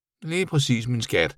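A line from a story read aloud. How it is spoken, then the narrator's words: Mother mumbling. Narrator (Danish): mumlede hans mor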